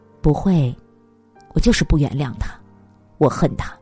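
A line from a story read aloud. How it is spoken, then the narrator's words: Choked with sobs. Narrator (Chinese): 岳云鹏哽咽的说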